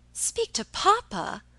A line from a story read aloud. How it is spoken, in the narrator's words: exclaimed Alicia